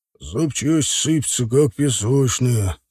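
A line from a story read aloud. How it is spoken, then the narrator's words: Very low voice. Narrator (Russian): сказал очень низким голосом Никита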